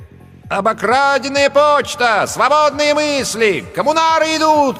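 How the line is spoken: Shouting. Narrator (Russian): кричал он

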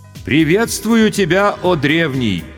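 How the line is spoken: Loud and respectful. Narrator (Russian): почтительно и громко произнес старший майор госбезопасности

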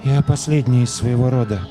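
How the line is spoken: Dull voice, girl. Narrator (Russian): глухим голосом проговорила девочка

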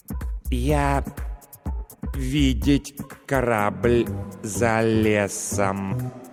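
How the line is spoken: Slow. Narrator (Russian): медленно произнес лингуампир

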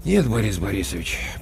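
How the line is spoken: With a sigh. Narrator (Russian): почему-то вздохнув, сказал Коля Краноухов

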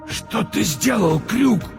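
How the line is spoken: Hoarse wheeze. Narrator (Russian): просипел Монокль

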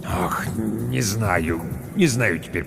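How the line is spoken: Building manager muttering. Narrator (Russian): пробормотал управдом

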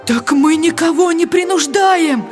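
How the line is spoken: Pleading. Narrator (Russian): Взмолился голос

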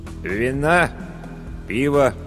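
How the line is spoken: Glum innkeeper asking. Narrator (Russian): уныло осведомился корчмарь

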